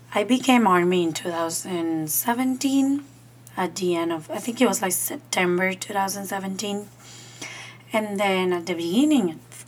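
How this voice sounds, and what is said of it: Slightly raspy voice. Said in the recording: “I apologize for my voice. It's a little bit raspy. Allergies.”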